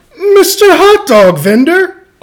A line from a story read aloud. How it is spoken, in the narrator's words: Amu exclaimed